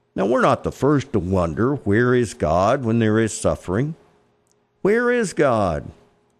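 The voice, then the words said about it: Texas accent. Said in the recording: “my Texas Fort Worth accent”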